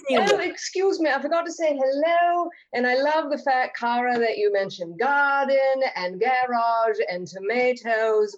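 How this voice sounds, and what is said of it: Put-on British accent. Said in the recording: “I will not stop talking like this... We should all talk British.”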